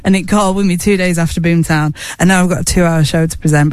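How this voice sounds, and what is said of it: Slightly rough, affected voice. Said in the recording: “hear it in my voice. There's a little bit of Boomtown dust going on there. Boomtown Lung”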